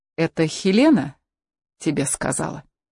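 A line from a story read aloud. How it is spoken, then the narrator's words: Calm even question. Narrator (Russian): ровным голосом спросил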